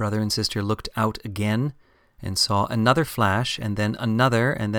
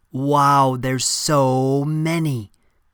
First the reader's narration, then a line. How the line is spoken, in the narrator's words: said Sylvia a little loudly